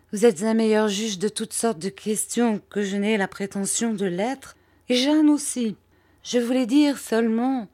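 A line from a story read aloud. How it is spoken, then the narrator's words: Timid woman's voice. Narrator (French): dit ma mère timidement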